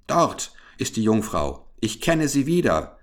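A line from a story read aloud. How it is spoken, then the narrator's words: Calling out. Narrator (German): rief er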